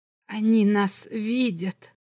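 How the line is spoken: Barely audible. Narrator (Russian): едва слышно сказал Баландин

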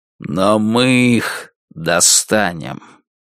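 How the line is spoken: Quiet, menacing voice. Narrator (Russian): Альберт Гендрон сказал тихим, но страшным голосом

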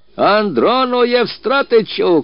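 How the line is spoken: Shouting. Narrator (Russian): кричал Мыльников

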